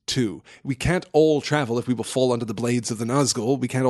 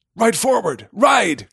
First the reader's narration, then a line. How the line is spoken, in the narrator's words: cried Glorfindel to Frodo